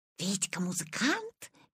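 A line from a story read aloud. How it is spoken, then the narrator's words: Whispering among themselves. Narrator (Russian): перешептывались Витины одноклассники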